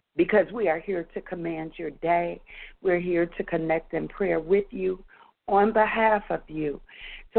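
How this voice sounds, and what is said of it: Hoarse, laryngitis-affected voice. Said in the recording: “I'm still trying to wade through a little bit of laryngitis,”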